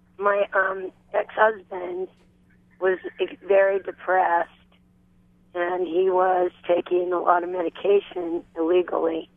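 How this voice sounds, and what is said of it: Hoarse, strained voice. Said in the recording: “I hope you can understand me. I've got laryngitis a little bit.”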